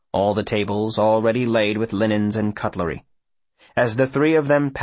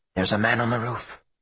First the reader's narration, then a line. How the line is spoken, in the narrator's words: he whispers